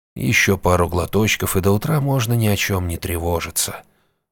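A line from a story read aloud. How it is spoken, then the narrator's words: Gentle inner whisper. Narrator (Russian): ласково прошептал внутренний голос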